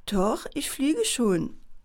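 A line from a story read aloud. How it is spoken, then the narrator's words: Quiet answer. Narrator (German): antwortete Daniela leise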